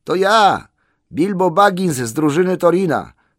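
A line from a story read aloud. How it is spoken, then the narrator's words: Hurried shout. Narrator (Polish): krzyknął spiesznie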